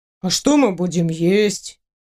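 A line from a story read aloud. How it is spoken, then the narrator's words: Gloomy question. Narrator (Russian): Уныло спросил принц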